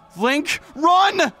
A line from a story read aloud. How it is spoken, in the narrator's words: Navi shouted desperately